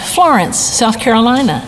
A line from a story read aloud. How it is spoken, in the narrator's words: wearily and said